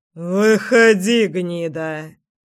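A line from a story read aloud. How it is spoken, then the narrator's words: Through gritted teeth. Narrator (Russian): процедил знакомый голос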